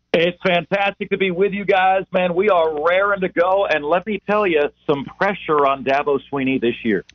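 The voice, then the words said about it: Polished professional radio voice. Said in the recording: “he's got a good radio voice. ... he's a professional”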